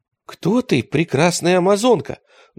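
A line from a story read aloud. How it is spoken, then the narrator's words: Trembling question. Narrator (Russian): дрожащим голосом спросил поэт горянку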